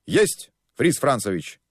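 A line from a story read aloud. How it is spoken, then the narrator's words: Joyful crisp chorus. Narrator (Russian): Радостно отчеканили айнцвайки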